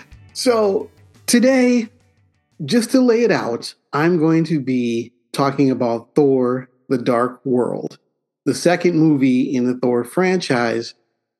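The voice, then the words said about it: Sick-sounding voice. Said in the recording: “apologize for my voice. I'm a little bit under the weather”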